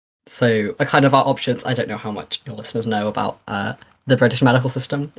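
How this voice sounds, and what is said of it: British accent. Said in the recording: “from the accent, I assume you're in somewhere in the UK”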